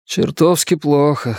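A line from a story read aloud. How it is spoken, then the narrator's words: Hoarse voice. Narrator (Russian): сказал Стив хрипло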